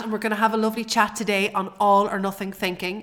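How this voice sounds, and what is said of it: Sick, unwell-sounding voice. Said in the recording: “I'm really, really sick. I'm not well at all ... my voice sounds funny”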